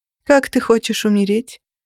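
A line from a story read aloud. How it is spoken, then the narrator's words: Almost bored question. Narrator (Russian): почти скучающим тоном спросила я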